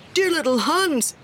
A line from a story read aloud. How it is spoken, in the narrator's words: cried the miller